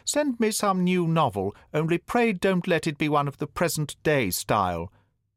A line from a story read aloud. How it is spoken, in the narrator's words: cried the countess from behind the screen